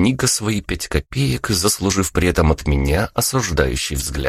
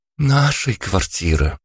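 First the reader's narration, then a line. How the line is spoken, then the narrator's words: Almost lovestruck voice. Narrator (Russian): почти влюбленным голосом произнесла Алла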